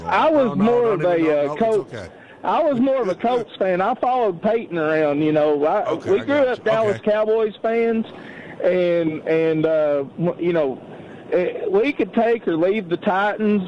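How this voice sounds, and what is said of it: Strong, striking accent. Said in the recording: “Dude, I love your accent. ... what an accent that guy's got.”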